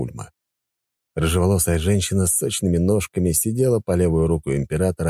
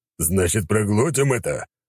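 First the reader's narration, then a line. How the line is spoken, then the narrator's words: Man's growl. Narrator (Russian): рыкнул мужчина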